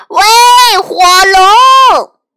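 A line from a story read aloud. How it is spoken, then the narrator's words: Shouting as loud as possible. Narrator (Chinese): 他尽可能的大声喊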